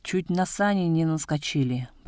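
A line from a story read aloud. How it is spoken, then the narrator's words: Grumbled. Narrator (Russian): проворчал Тасото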